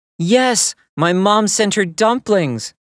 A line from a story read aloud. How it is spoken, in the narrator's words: May replied excitedly